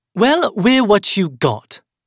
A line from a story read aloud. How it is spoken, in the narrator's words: Eliza snapped, that fire flickering in her eyes once more